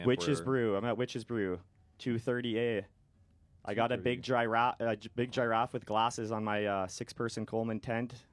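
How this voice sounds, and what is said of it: Thick Canadian accent. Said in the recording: “That's how they say giraffe in Canada... I have a very thick accent for all you Americans”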